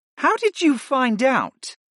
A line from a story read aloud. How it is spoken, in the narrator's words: the professor asked, and her tone was more perplexed than it was irritated